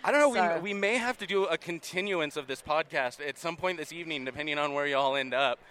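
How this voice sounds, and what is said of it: Usual voice. Nothing is said of it.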